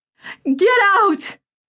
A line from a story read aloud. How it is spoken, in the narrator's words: she screamed